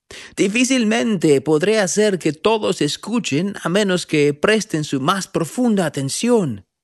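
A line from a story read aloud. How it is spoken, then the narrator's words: Shouted over the wind. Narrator (Spanish): gritó el profeta por encima del ruido del viento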